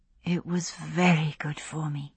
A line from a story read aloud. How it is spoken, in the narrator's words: she said softly